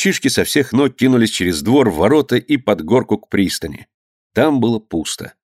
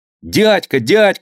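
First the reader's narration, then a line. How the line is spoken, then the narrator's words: Shouting. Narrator (Russian): закричал Данилка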